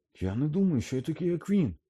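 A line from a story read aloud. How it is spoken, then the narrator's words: Slightly too loud exclamation. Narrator (Ukrainian): Аж трохи заголосно вигукнув Гаррі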